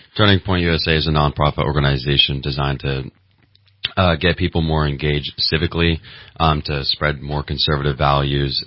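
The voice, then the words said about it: Deep voice, good radio voice. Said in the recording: “your voice is deeper ... Good radio voice”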